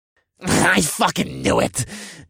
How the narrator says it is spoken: Div spat

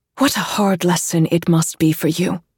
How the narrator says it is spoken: she says

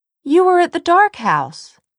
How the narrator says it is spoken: Tessa exclaimed

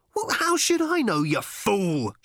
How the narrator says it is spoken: shouted Ford

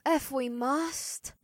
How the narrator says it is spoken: May sighed

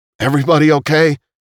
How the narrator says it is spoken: he called out

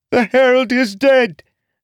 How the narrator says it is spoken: Jack screamed in a terrified voice

